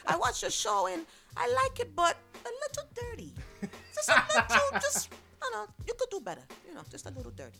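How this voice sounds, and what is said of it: Put-on strong Italian accent. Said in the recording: “his accent is so strong ... my Italian accent”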